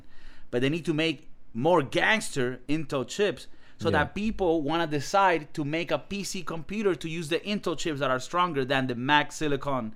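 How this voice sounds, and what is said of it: Non-native accented English. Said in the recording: “that probably sounded like battle chips because of my accent”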